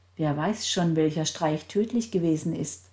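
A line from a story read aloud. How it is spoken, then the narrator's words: Cold statement. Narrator (German): stellte Gertrud mit kalter Stimme fest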